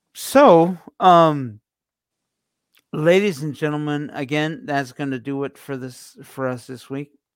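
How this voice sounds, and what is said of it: Strained, fading voice. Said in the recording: “I think I'm losing my voice for today.”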